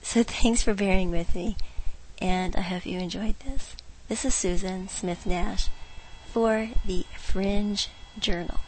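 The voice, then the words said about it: Hoarse voice. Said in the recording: “I'm almost over my laryngitis, but not quite”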